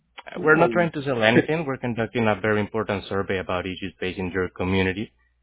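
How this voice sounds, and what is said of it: Spanish accent in English. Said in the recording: “I'm just trying to figure out your accent. ... my native language is Spanish”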